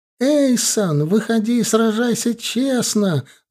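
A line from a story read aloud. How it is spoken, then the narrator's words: Yell again. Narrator (Russian): заорала она вновь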